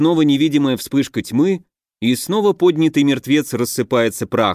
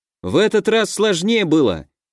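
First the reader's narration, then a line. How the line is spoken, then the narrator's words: Shouted by a teenager. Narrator (Russian): крикнул 13-летний я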